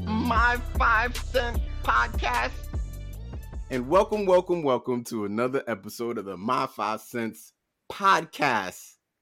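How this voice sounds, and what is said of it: Speaks with a put-on accent. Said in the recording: “why am I talking with an accent? ... Why are you talking with an accent?”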